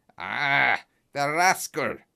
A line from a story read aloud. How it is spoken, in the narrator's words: he cried